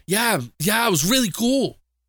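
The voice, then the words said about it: Imitates another person's voice. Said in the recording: “my worst impression”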